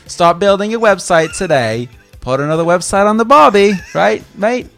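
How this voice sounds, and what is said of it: Poor put-on Australian accent. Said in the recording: “I can make fun of Australian people... My impersonations are bad... It's basically my real voice. I'm not even trying.”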